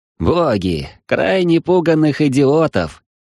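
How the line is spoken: Chuckle. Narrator (Russian): хохотнул Юринарий

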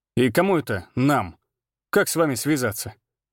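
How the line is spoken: Laughing. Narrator (Russian): Григор рассмеялся

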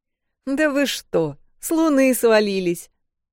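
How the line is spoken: Laughing. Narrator (Russian): рассмеялся Джек

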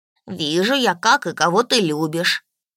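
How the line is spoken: Spirit grumbling. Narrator (Russian): проворчал дух

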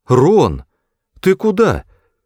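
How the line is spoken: Exclaimed. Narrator (Russian): воскликнула Флора

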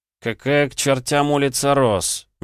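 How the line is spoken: Puzzled grumble. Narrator (Russian): недоуменно пробурчал Петя

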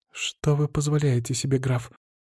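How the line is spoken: Quiet exclamation, young woman. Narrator (Russian): тихо воскликнула девушка

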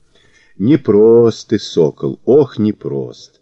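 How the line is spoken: Old man drawling. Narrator (Russian): протянул старикан

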